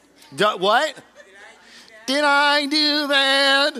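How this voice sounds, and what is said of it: High-pitched nasally character voice. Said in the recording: “high-pitched, nasally kind of a voice ... best Steve Urkel impersonation”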